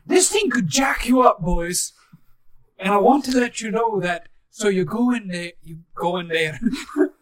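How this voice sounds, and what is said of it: Put-on different accent. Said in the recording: “I was talking in a different accent”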